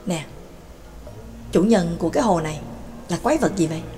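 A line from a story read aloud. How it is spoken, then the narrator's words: Whispered question. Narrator (Vietnamese): Ca Phù thì thầm hỏi nhỏ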